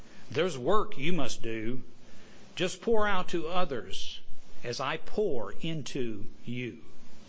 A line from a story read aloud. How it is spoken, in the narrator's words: Spoke to it kindly